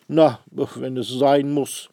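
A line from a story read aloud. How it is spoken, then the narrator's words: Grumbling fat man. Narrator (German): sagt der dicke Herr brummelig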